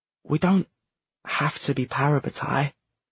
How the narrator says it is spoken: Matthew said, his voice quiet under the sound of the blast

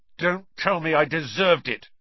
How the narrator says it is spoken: snapped Ron

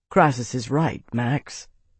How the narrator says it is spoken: Tavi said quietly

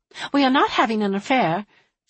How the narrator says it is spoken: she had said quickly and insistently

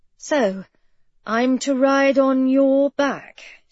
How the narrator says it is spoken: she asked nervously

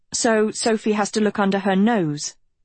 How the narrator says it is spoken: Agatha snapped

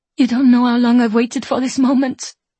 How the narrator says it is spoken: Elodie sobs, her voice muffled against Maggie's neck

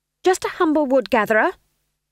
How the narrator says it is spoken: she snapped

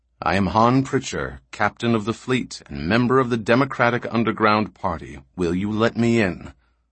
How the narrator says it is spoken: The captain took an imperceptibly longer breath and then said calmly

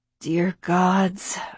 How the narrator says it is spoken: I groaned

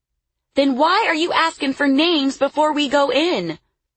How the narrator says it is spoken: a young woman called out

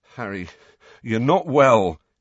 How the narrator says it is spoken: he said shakily

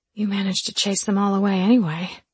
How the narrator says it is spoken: I whispered

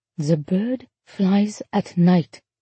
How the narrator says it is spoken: the person said softly, the voice belonged to a woman

